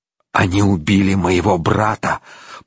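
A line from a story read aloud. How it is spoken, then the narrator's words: Hiss. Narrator (Russian): прошипел Рейнован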